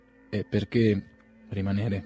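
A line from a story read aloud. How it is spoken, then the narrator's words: Plain. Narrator (Italian): rispose Bazarov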